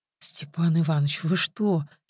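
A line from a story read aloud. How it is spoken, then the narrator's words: Frightened question. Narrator (Russian): испуганно спросила Тоня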